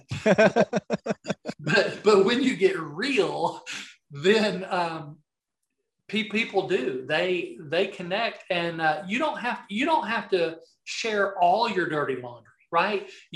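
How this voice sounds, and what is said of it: Southern American accent. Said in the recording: “I don't mean R-E-E-L. That's just my Southern accent.”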